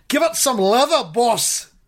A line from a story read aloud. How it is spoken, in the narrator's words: says Logan